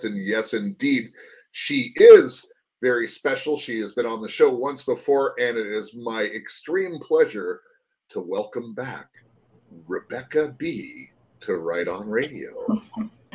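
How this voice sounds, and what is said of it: Announcer-style radio voice. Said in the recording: “I got to use like the radio voice when I say that”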